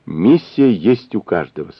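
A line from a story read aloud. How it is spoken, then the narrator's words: Plain. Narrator (Russian): сказал Юрий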